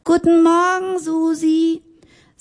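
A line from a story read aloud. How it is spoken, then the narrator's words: Cheerful call across hall. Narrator (German): fröhlich … rief durch den ganzen Saal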